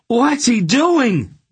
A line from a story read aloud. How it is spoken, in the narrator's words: Geryon screamed